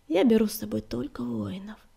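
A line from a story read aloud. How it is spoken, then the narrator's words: Gentle but firm. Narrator (Russian): ласково, но твердо ответил Огнегрив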